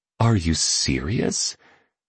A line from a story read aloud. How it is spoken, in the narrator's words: murmured a woman